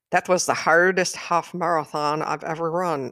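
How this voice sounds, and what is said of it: Poor imitation of Irish accent. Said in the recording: “I'm doing a terrible impression. ... he was from Ireland”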